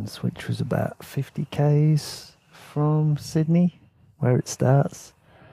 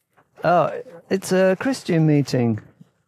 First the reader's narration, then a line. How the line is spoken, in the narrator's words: the man in the Mac said cheerfully